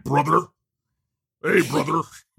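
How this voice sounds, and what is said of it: Hulk Hogan impression. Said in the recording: “my Hulk Hogan impersonation”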